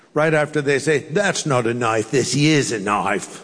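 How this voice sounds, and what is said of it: Faltering put-on Australian accent. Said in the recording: “in Australia ... they'll say ... that's my accent's falling apart as I do it”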